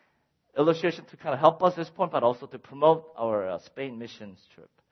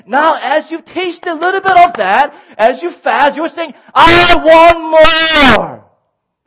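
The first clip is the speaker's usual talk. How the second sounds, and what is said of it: Excited screaming. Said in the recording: “Sorry for screaming there. I don't know why I'm getting excited there.”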